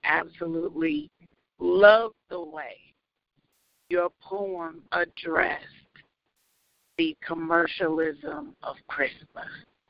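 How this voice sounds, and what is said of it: Raggedy, rough voice. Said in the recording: “My voice is a little raggedy”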